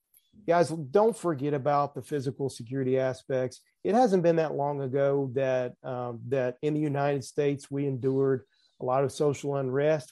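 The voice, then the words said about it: Southern US accent. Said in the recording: “I'm sure folks can tell from my accent. I am from the South”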